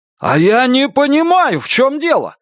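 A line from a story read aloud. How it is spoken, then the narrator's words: Shouted. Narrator (Russian): закричал Лестер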